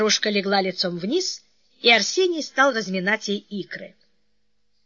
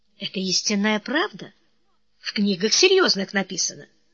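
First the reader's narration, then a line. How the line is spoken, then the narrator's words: Quiet, convincing. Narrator (Russian): Сусанна тихо, но убедительно произнесла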